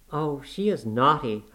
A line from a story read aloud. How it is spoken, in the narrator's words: I cried